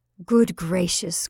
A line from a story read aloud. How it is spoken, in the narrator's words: cried the mother irritably